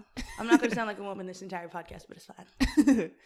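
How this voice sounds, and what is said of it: Hoarse, deepened voice after losing it. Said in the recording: “my voice is gone ... It's coming back, but it was gone for like a whole 5 days and that's why I sound like this”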